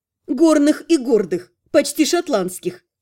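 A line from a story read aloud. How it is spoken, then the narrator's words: Giggling. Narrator (Russian): хихикнула я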